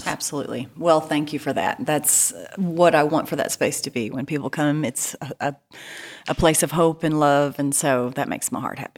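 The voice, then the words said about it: East Texas accent. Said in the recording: “I'm from East Texas, as you can probably tell by this accent.”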